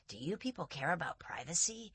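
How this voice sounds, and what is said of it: Scratchy New York accent. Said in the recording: “in this kind of very scratchy New York accent”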